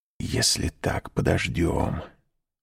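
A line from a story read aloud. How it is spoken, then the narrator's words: Whisper. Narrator (Russian): прошептал он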